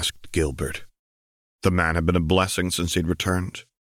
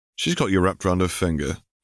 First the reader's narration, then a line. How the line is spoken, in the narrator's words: Harry chuckled